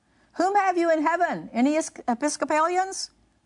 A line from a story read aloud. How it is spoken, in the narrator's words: cried Whitefield